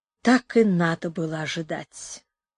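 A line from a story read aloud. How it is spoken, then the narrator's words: Quiet. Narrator (Russian): сказал он тихо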